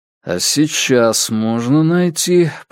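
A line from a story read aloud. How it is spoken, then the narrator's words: Muttered. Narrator (Russian): пробормотал Страйк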